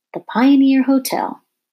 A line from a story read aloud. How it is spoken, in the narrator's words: cried Wilmer